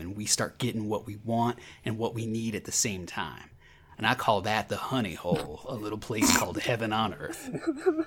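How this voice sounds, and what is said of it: Imitates another person's voice, Texas accent. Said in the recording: “Decent McConaughey impersonation. I'm impressed. ... That was pretty good. ... I struggle with the Texas accent”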